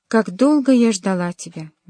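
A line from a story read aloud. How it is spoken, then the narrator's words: Exclaimed. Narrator (Russian): воскликнула она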